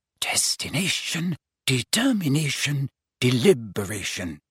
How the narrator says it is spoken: she murmured

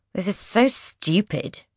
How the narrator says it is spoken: Carnelian grumbles

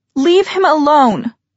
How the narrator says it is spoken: Emma shouted

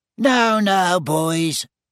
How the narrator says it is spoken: squeaked Professor Flitwick reproachfully

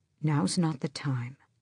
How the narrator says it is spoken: Dorian said quietly

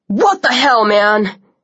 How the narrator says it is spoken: Zack shouted

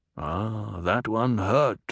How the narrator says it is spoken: Stilgar murmured

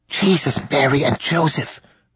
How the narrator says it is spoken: Rudy whispered

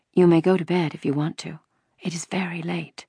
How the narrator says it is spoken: Mama whispered to her in the hall

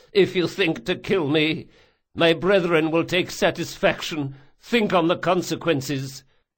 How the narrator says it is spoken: said the falconer between sobs

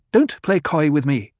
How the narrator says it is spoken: snapped

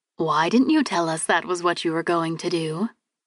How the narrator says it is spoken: She asked quietly, holding a smile as if nothing was wrong

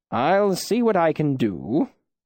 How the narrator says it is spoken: Ben said, his voice amused

